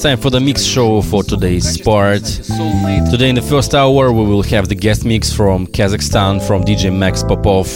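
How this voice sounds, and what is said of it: Voice sounds strained and unwell. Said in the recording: “as you can hear by my voice, I'm not supposed to speak very much today, got some problems”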